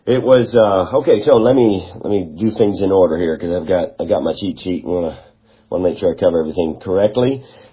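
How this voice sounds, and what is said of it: Congested voice from a cold. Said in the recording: “you can maybe tell by my voice that, well, I'm actually getting over a cold ... now it's into my voice and congestion”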